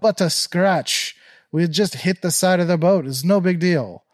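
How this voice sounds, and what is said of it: Put-on unidentified accent. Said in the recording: “I don't know what accent that was”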